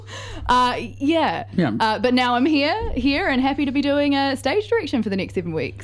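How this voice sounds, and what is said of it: New Zealand accent. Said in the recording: “the accent is kept ... keeping the New Zealand accent”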